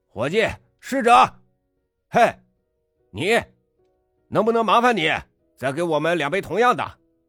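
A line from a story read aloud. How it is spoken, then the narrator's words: Loud shouting. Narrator (Chinese): 又嚷了起来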